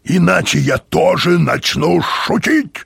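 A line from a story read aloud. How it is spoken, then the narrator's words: Bark. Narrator (Russian): рявкнул он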